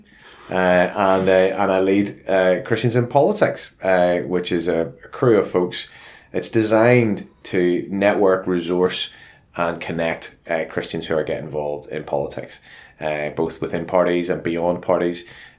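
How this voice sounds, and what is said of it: Luton English accent. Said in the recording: “as you can tell from the accent, I'm from Luton”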